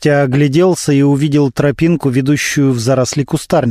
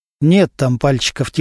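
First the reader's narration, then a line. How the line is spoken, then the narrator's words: Quiet. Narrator (Russian): тихо сказал Немирович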